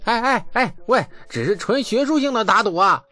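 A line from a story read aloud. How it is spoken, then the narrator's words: Loud, reluctant shout. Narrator (Chinese): 李素不甘心的大声的喊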